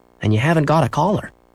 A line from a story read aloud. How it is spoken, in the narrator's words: said Henry